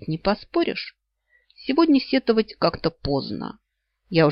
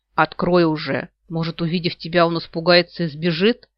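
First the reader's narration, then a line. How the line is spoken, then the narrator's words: Displeased grumble. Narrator (Russian): Недовольно проворчал мой кроль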